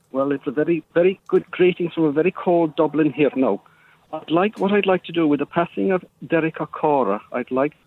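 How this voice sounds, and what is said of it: Poorly done put-on Irish accent. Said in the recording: “do a decent Irish accent ... maybe you could have worked on the accent a little bit better, or phoned in using one that you could actually do ... You sounds like you're from Pakistan”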